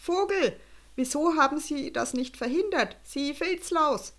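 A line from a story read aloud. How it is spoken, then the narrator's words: Furious, trembling voice. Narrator (German): Erbost und mit einem Zittern in der Stimme rief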